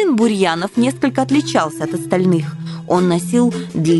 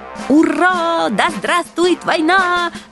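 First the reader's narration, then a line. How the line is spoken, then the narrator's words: Generals shouting joyfully. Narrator (Russian): радостно завопили генералы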